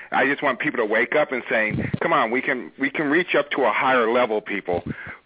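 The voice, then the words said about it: Voice of someone with a cold. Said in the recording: “I have a cold”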